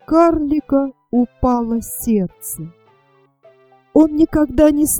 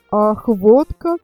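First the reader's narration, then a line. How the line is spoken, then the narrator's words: Said, then laughed. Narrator (Russian): сказал герцог и рассмеялся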